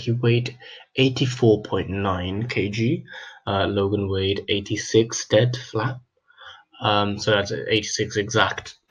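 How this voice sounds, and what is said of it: Rough, unwell-sounding voice. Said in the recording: “you can tell my voice is still kind of shit”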